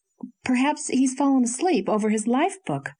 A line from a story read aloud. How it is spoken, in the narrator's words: said anxiously